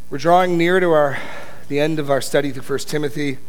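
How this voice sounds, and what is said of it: Weak, strained voice. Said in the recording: “my voice is a little weak this morning”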